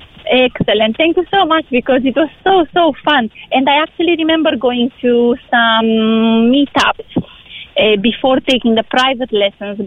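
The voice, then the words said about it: Romanian accent. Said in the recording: “your accent is beautiful ... I'm from Romania”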